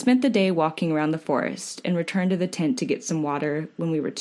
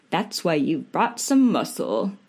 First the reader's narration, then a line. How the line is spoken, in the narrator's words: declared Chris